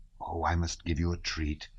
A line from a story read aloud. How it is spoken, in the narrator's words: Bilibin whispered to Bolkonski